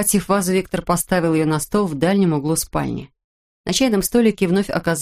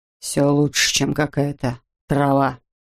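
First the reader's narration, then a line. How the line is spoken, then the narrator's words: Grumbled. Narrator (Russian): буркнул он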